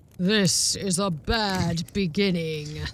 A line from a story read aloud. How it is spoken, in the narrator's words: sighed the Prime Minister